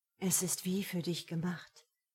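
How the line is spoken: Quiet speech. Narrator (German): sagte leise

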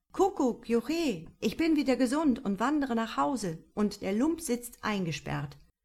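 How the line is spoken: Wanderer calling out. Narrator (German): der Wanderer rief

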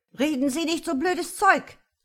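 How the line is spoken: Breathless furious shriek. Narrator (German): kreischte der Maulwurf atemlos vor Wut

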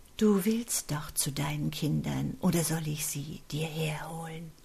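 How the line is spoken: Frail, feeble voice. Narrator (German): Mit fast gebrechlicher Stimme stellte er die Fragen

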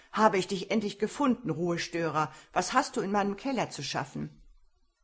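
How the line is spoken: Calling out. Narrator (German): rief Herr McCarthy

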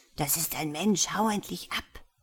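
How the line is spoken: Hissing. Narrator (German): zischte Klavian in der Sprache Makuns

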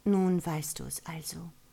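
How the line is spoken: Perplexed, sighing. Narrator (German): Es klang ratlos, und sie seufzte

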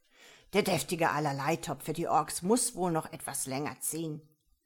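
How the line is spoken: Growled. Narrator (German): knurrte Horst

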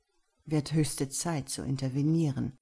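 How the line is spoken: Said quietly to oneself. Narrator (German): sagte ich leise zu mir selbst

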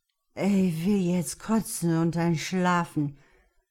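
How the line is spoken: Man musing tiredly. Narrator (German): überlegte er müde

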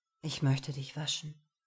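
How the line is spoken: Gentle. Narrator (German): sagte sanft

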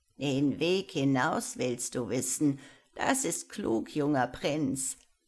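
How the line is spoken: Old woman's mocking laugh. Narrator (German): lachte die Alte höhnisch

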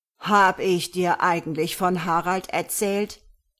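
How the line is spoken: Loud questioning voice. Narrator (German): fragte sie mit lauter Stimme

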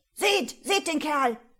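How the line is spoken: Shouting from all sides. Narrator (German): schrie es von allen Seiten

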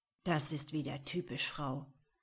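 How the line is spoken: Grim growl. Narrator (German): knurrte er verbissen

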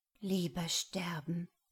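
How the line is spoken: Purring into silence. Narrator (German): schnurrte sie in die Stille

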